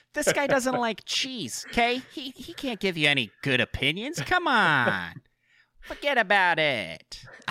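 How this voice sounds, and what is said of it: Put-on weird New Yorker accent. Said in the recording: “My weird New Yorker accent there.”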